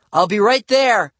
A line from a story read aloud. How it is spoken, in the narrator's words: I shouted